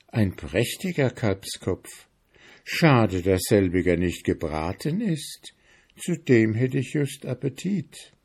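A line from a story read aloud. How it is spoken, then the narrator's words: Murmured. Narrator (German): Hans murmelte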